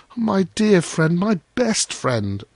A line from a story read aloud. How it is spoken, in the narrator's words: cried little